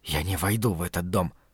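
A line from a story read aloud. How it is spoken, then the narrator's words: Hissed. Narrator (Russian): прошипел Лео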